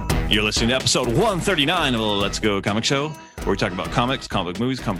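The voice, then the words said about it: Radio announcer voice. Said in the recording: “my radio announcer voice ... That was very radio announcer. That was like even more so than usual.”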